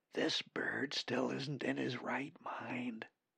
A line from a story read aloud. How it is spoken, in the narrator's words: Molly whispered